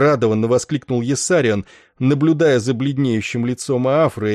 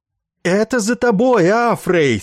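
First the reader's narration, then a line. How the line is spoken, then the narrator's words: Sympathetic loud shout. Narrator (Russian): сочувственно заорал, чтобы быть услышанным Иссариан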